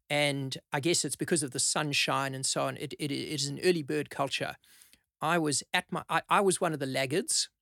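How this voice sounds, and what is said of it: South African accent. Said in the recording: “you can maybe tell from the accent, I started my legal career many, many years ago in South Africa”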